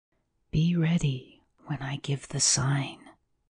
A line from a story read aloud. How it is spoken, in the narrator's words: the well-known whisper